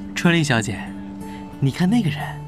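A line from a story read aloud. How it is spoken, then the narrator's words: Low voice. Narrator (Chinese): 傅一卓低声说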